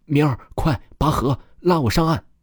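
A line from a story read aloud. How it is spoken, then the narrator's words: Panting, breathless. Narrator (Chinese): 三狗子喘着粗气说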